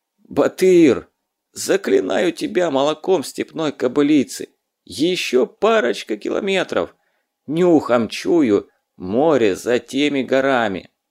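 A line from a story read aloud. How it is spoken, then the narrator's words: Pleading, parched wheeze. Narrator (Russian): Мокрый от жары задов умоляюще просипел пересохшим голосом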